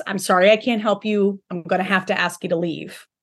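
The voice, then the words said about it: Firm, authoritative tone. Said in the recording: “speaking in a more authoritative voice. ... Rather than smiley, bubbly ... It's a change in tone.”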